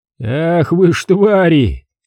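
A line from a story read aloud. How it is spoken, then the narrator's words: Shouted. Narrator (Russian): Непонятно кому прокричал последнюю реплику Якименко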